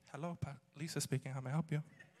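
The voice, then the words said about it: Sweet polite phone voice. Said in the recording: “goes from street to sweet real quick ... Answers the phone ... phone voice”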